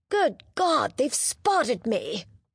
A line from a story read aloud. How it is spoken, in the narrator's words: he groaned